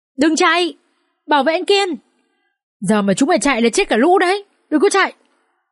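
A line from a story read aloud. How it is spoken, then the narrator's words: Desperate screaming. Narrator (Vietnamese): gã đàn em đang cõng Kiên cố gắng gào thét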